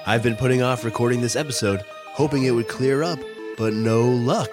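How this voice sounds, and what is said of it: Voice affected by a cold. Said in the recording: “what's wrong with your voice? ... I have a little cold.”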